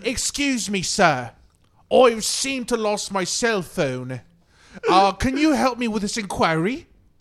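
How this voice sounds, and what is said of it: Put-on British accent. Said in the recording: “Was he getting that British accent? ... He had a super British accent.”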